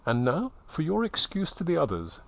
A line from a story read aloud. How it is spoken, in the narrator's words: she said